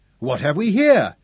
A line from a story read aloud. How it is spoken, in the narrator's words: His tone was gay